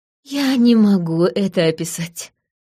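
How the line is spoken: Sigh. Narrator (Russian): вздохнула Дарай

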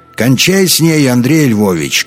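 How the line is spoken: Shouting from above. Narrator (Russian): крикнул сверху Свиридов

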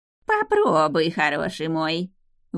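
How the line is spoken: Nasal voices in unison. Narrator (Russian): в унисон гнусавила четвертая нечисть

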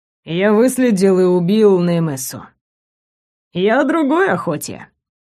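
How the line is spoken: Chuckling. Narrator (Russian): хохотнул Дэн Гиен

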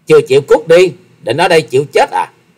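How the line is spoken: Sudden loud shout. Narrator (Vietnamese): Thiếu nữ áo đen chợt quát to

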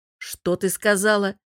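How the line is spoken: Smirking. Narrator (Russian): хмыкнув, босс

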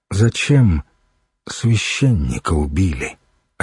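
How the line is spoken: Deceptively calm question. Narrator (Russian): Обманчиво спокойным голосом спросил Духарев

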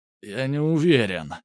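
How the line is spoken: Groaning. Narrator (Russian): простонал Алексей

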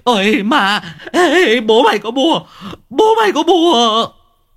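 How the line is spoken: Shrieking old man. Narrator (Vietnamese): lão rú lên

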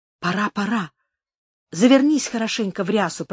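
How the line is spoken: Whisper. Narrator (Russian): прошептала

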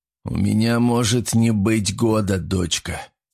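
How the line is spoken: Heavy sigh. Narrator (Russian): тяжело вздохнул Корсаков

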